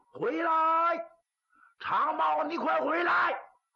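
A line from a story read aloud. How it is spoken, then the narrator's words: Angry, resentful shout. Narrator (Chinese): 韩金虎又气又恨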